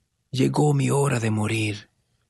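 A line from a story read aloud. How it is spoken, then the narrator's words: Weak, dying voice. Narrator (Spanish): dijo débilmente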